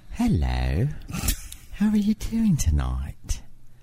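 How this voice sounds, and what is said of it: Put-on British East End accent. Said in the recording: “let's hear your British accent ... So you're East End”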